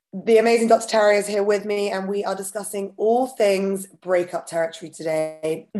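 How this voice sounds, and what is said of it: Slightly husky, raspy voice. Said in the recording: “a slightly huskier than usual ... I've got a little bit of a cold ... apologies for the slightly raspy voice”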